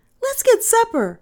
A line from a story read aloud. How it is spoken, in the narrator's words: she cried